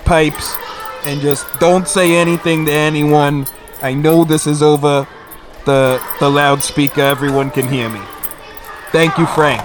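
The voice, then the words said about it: Increasingly strong New Jersey accent. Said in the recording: “you dug further and further ... into like this New Jersey accent.”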